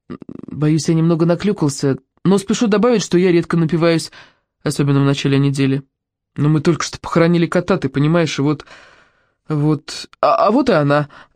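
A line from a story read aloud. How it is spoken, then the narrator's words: Mumbling. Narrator (Russian): промямлил Тоби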